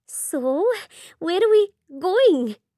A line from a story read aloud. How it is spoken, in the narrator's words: She asks between gasps